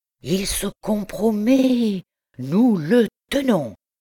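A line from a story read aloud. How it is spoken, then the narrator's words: Triumphant exclamation. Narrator (French): s'écria-t-il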